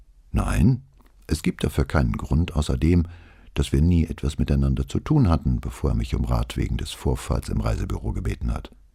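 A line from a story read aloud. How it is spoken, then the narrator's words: Calm answer. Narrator (German): Zambino … antwortete ruhig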